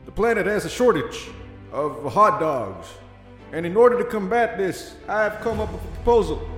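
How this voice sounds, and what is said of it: Mock presidential speech voice. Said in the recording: “my impression of like a president giving a speech ... excruciating pain of listening to that”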